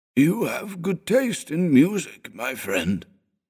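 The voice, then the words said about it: Coarse, gravelly old man's voice. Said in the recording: “His voice was coarse, as if his vocal cords had received a vigorous sandpapering.”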